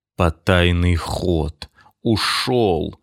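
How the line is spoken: Moaning, teeth chattering. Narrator (Russian): стуча зубами, простонал Платон Зубов

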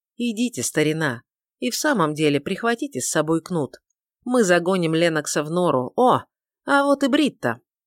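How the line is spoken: Strained laughter. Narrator (Russian): снова рассмеялся, хотя и несколько натянуто, и сказал

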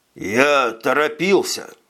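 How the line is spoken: Forced out with effort. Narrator (Russian): выдавил из себя принц

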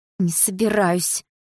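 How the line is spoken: Through gritted teeth. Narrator (Russian): процедила сквозь зубы Дилара

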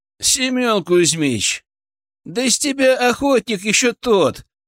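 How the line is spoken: Laughing. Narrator (Russian): смеялся Ценев

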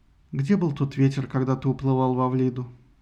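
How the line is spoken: Sad. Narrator (Russian): грустно сказал Лаодамия

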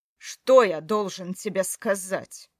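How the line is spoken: Sudden bark. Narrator (Russian): Вдруг рявкнул он

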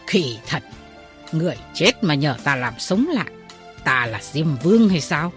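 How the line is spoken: Angry. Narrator (Vietnamese): Tức giận

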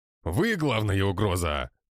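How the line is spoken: Barking snap. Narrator (Russian): рявкнул Жучков

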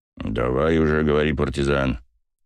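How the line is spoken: Growled. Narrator (Russian): прорычал Басов

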